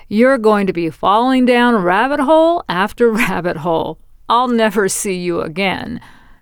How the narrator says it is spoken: he laughed and said

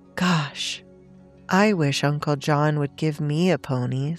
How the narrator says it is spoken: said Tommy with a deep sigh

